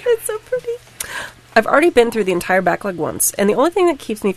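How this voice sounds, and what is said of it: Teary, emotional voice. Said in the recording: “get a little teary”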